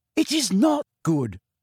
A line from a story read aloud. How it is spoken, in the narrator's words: said Hermione hotly